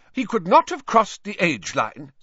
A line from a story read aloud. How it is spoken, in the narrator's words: said Professor McGonagall sharply